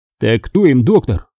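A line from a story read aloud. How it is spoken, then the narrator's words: Scoffing. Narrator (Russian): хмыкнул Виктор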